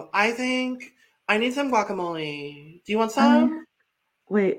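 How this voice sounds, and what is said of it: Imitated high-school girl voice. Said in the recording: “my Courtney impression because I think I'm getting really good at my Courtney impression ... I'm actually really impressed with myself and my Courtney impression. She just sounds like all the girls I went to high school with”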